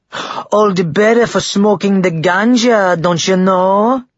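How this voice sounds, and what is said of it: Fake Jamaican accent. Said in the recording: “another answered in a fake Jamaican accent.”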